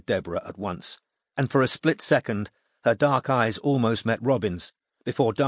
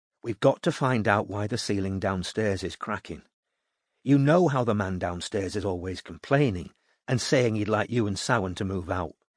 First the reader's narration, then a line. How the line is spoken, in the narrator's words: said Robin quietly